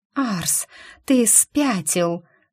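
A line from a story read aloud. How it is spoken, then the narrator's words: Breathless excited hiss. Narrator (Russian): зашипела я, задыхаясь от будоражащих кровь ощущений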